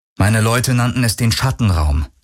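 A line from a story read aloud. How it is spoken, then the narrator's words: Plain. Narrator (German): sagte er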